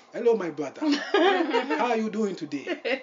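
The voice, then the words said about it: Put-on African accent. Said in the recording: “the African accent”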